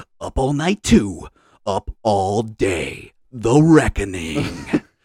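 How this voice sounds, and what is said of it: Big movie trailer announcer voice. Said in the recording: “in my big voice movie guy type of voice”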